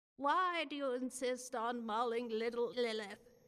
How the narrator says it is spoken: she asked in a droning monotone

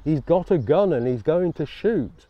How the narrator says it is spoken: His mother shouting

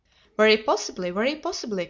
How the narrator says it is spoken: cried Mr

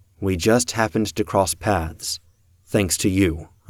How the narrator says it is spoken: I said

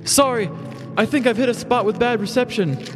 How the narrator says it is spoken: he yelled over his own crinkling

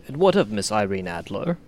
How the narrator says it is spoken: asked

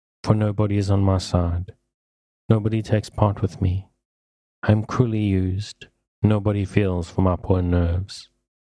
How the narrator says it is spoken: she added in a melancholy tone

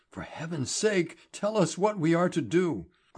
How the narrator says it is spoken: Grimfern gasped

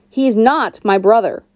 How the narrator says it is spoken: I snapped

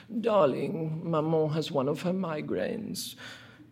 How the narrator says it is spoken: the moaned response

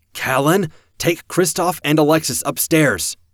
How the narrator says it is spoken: shouted

